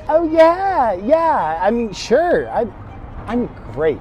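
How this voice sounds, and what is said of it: Nervous, hesitant speech. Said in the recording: “You sound nervous. ... you seem very nervous.”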